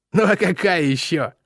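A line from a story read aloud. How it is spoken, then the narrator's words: Snorting. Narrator (Russian): хмыкнул Бой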